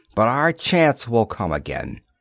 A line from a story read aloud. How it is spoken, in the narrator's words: he told Gamar bitterly